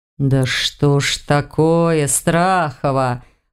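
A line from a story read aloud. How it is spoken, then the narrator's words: Groaning. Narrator (Russian): простонал Кейсар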